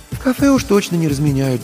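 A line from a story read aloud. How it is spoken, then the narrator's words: Sigh. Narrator (Russian): вздохнула Марина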